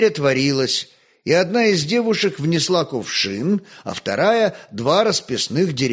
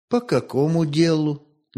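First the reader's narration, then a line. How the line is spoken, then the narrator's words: Deliberately calm question. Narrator (Russian): намеренно спокойно спросила Ольга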